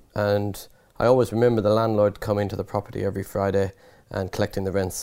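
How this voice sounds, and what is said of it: Irish accent. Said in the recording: “obviously by the accent, I'm Irish”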